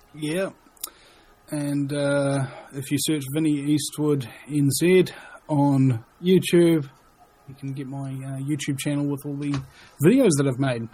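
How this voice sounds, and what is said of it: Noticeable accent. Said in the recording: “That accent.”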